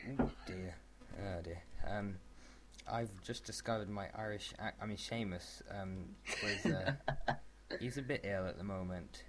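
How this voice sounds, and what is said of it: Put-on Irish accent. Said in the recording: “You've nicked his Irish accent.”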